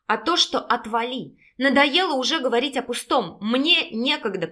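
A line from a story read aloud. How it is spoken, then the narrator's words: Through gritted teeth. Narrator (Russian): процедила Пущина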